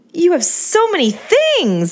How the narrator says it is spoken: I shrieked

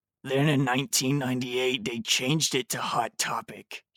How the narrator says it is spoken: he moaned

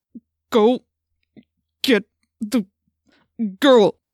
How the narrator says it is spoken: said through gritted teeth

